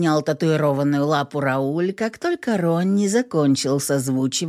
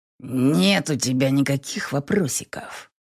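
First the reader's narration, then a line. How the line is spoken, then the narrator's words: Growl. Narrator (Russian): рыкнул я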